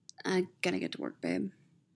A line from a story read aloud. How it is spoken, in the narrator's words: he mutters into Steve's shoulder